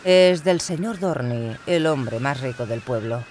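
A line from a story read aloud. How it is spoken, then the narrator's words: Plain. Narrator (Spanish): respondió el padre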